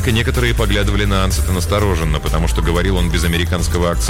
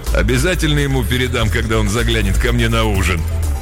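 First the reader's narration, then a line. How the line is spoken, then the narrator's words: Man, plain. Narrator (Russian): один мужчина сказал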